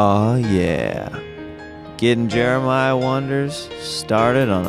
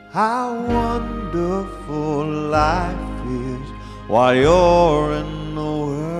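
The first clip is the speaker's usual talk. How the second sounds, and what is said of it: Sung impression of a pop singer. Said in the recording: “my Elton John impression ... some smooth Elton John”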